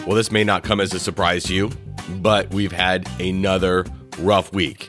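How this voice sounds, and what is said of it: Congested voice from a head cold. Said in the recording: “You can probably hear in my voice, I'm a bit under the weather ... that good old-fashioned elementary school head cold”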